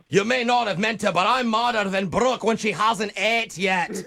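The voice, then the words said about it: Thick put-on accent. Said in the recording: “in thick accents ... this is not a real accent”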